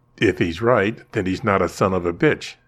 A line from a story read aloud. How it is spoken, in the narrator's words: Mindy said calmly